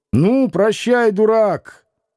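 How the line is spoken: Shouting. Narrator (Russian): Иноков крикнул во двор

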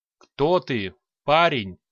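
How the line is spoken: Booming old man's question. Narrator (Russian): гулким голосом спросил старик

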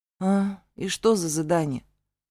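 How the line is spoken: Sullen question. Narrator (Russian): поинтересовалась угрюмо

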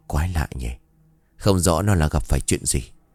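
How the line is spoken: Puzzled muttering. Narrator (Vietnamese): băn khoăn lẩm bẩm

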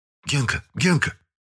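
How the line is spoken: Whisper from below. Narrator (Russian): услышал шепот внизу двухъярусной кровати

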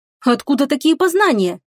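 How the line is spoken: Astonished exclamation. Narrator (Russian): изумленно воскликнула Лая

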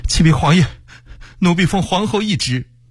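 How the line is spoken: Breathless young eunuch. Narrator (Chinese): 坤宁宫一名年轻太监 喘着气说

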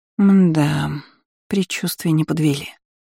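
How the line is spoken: Weary statement. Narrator (Russian): устало констатировала Айролин

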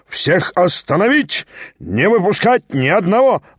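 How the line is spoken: Yelling. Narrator (Russian): вопил Лембке

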